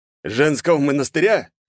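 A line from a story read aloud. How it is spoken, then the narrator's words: Chuckle, father. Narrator (Russian): хохотнул отец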